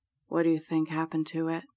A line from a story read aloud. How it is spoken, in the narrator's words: Jacob whispers